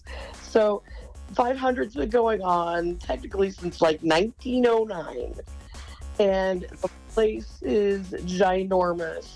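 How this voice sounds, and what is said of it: Very hoarse, strained voice. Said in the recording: “my voice is really hoarse, because I was yelling at the race cars at the race on Sunday. So that's why I have no voice.”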